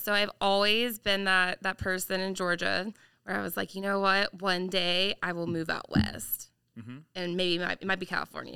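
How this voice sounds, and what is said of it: Southern US Georgia accent. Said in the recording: “I am from Georgia originally, if you can't tell by the accent.”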